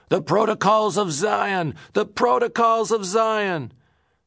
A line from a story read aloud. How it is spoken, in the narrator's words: cried out